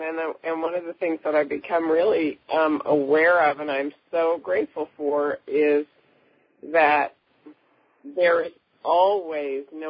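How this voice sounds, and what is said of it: Sick-sounding voice. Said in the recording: “you can probably tell from my voice that I've got a little bug”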